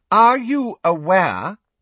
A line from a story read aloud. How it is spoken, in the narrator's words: Umbridge said loudly, interrupting him